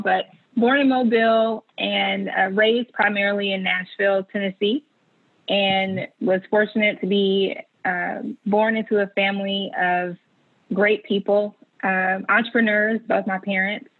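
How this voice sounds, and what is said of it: Slight Southern US drawl. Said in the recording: “a little bit of a southern drawl”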